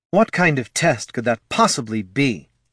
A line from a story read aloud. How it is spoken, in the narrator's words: Laruna snarled